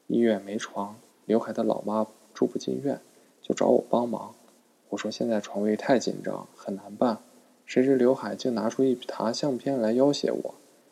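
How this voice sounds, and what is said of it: Quiet, hushed explanation. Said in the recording (Chinese): “小声解释说”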